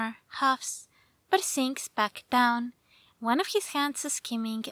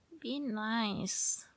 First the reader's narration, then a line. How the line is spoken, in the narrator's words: he mutters